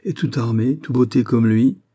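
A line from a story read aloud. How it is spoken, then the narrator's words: Shouted. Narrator (French): cria-t-elle à Raoul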